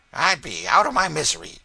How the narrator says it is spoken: said the woman gruffly

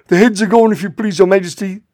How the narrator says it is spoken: the soldiers shouted in reply

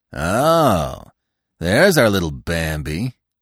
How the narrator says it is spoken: he said scornfully

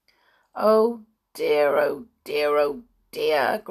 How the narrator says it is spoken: groaned Binky at once

